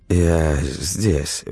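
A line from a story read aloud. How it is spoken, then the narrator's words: Limp, sleepy mumble. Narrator (Russian): вяло промямлила Алла, проморгавшись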